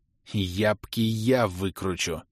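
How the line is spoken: Vicious hiss. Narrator (Russian): продолжал шипеть я злобно, как поглаженная против шерсти гадюка

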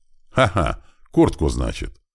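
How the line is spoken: Hearty laugh, snide question. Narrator (Russian): Барон от души рассмеялся и так ехидно спросил

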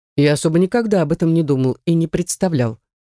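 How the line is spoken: Cheerful man's chuckle. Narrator (Russian): неожиданно весело хмыкнул мужчина

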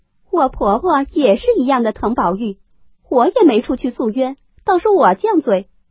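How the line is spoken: Laughing. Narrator (Chinese): 凤姐笑道

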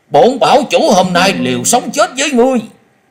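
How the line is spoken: Defiant frenzied shout. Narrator (Vietnamese): Hắc thạch bảo chủ tự biết hôm nay khó lòng thoát khỏi kiếp số, nhưng hắn không cam tâm cúi đầu, cất giọng điên cuồng hét lớn

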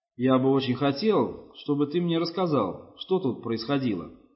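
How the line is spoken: Plain. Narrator (Russian): сказал Руиз

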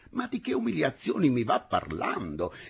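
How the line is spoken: Exclaimed. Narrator (Italian): esclamò

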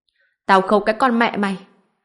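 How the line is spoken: Furious scream, bloody mouth. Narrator (Vietnamese): Viên Vĩ miệng đầy máu, giận dữ hét toáng

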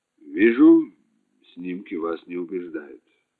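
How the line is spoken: Plain. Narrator (Russian): сказал полковник

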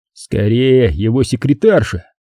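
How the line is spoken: Muttered. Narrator (Russian): пробормотал Грин

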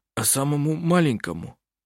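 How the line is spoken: Hoarse question. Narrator (Russian): Сипло спросил Густав

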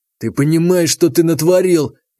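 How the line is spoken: Furious hoarse rasp. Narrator (Russian): в ярости хрипел Демид

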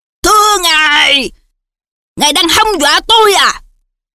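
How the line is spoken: Very loud. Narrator (Vietnamese): Dượng nói to tiếng đến nỗi hành khách chung quanh phải ngoái đầu trợn mắt nhìn

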